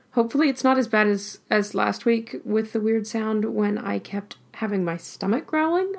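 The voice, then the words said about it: Voice cutting in and out. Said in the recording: “I do keep losing my voice though, so it's going to be in and out today”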